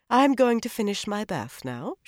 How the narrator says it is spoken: she said calmly

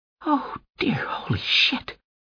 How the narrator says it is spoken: Fleer Imseho whispered

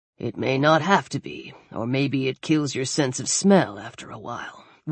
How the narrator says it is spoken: Weller muttered

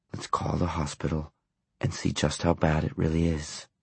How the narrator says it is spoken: he said gently

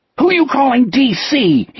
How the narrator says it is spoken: he screamed

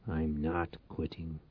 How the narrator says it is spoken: Reich growled

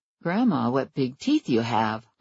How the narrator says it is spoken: I murmured

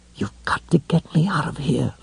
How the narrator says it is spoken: Lois whispered

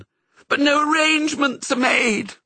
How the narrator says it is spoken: wailed the setter

